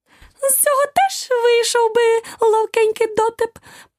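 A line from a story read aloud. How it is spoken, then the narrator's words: Tiny squeaky voice close. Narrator (Ukrainian): пропищав тонісінький голосочок біля самого її вуха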